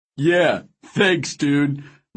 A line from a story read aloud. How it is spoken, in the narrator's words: Milo called after me, laughing